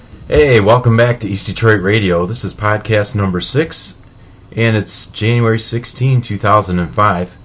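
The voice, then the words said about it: Sick, slightly congested voice. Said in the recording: “I've got a new cold. You can kind of hear it in my voice”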